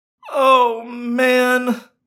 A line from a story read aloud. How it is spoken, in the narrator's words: I moaned